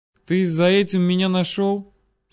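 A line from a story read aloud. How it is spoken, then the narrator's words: Calm, smiling. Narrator (Russian): спокойно улыбнулся Витрицкий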